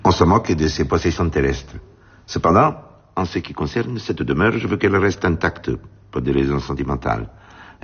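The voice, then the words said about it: Elderly man, slight Spanish accent. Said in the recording (French): “il est très âgé ... il a un léger accent espagnol ou peut-être sud-américain”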